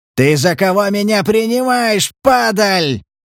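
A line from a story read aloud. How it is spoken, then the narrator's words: Furious spitting yell. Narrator (Russian): заорал Дикой, брызжа слюною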